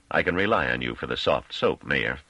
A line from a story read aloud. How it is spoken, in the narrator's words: said Caudill dryly